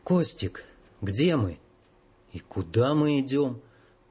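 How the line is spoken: Quiet hoarse voice. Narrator (Russian): негромкий, почему-то охрипший голос Ивана

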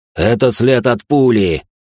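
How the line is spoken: Growl. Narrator (Russian): прорычал охранник

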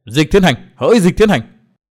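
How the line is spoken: Shouting. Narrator (Vietnamese): Chàng định thần hét lên

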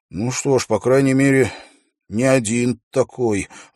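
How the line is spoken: Sighing. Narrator (Russian): вздохнул

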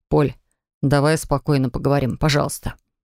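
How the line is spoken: Forced calm plea. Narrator (Russian): Попросил как мог спокойно

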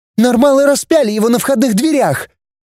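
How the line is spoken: Angry exclamation. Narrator (Russian): гневно воскликнула Рита

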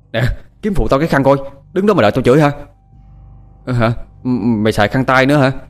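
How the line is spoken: Angry shout. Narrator (Vietnamese): nó cáu hét lên

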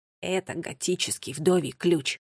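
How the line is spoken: Pleased whisper. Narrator (Russian): Финн довольно прошептал

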